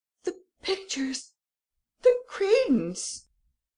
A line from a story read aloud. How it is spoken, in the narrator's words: the Baron cried out